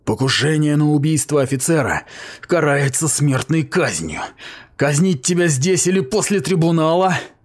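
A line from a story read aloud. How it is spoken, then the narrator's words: Groaning. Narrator (Russian): Он простонал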